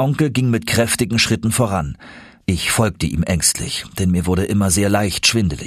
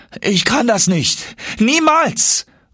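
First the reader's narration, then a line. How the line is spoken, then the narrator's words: Screaming. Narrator (German): schrie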